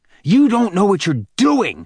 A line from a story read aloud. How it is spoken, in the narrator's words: shouted a livid Bannon at Hicks